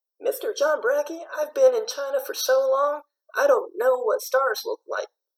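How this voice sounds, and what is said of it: Texas-sounding accent. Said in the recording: “Where did you pick up this accent? ... it sounds an awful lot like Texas.”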